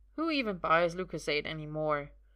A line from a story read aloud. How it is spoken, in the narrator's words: Merlin grumbles